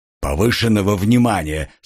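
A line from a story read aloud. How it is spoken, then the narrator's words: Dry, curt. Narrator (Russian): сухо проговорил Гар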